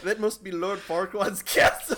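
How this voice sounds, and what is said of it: Mock Scottish cartoon ogre voice. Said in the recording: “How do I even do the Shrek accent? I don't know how to ... be Scottish. ... Perfect. You nailed it. ... Just like Mike Myers.”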